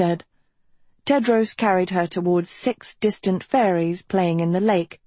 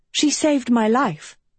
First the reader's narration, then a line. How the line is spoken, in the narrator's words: Sophie breathed